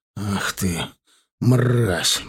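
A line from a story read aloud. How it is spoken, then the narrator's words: Hoarse, blood-choked rasp. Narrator (Russian): прохрипел я, ощущая во рту вкус крови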